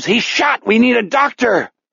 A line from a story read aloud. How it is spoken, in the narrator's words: The PA horns shriek with more feedback